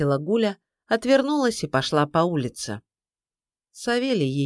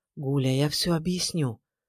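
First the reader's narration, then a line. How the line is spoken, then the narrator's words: Whisper. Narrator (Russian): прошептал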